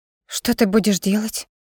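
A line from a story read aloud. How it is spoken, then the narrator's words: Sudden whisper. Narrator (Russian): Вдруг шепотом поинтересовалась Ирма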